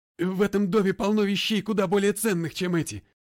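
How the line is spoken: Exasperated shout. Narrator (Russian): не выдержав, крикнул Холт

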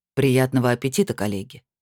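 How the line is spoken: Calm rector's wish. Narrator (Russian): спокойно пожелал ректор

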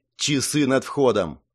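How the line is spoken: Irritated. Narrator (Russian): раздраженно произнесла Клариса

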